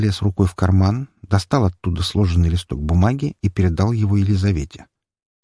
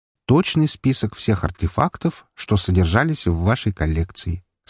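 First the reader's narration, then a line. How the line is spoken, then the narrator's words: Calm. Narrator (Russian): спокойно сказал я ей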